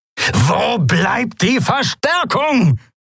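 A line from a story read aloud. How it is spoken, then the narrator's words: Roaring shout. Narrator (German): brüllte Monaro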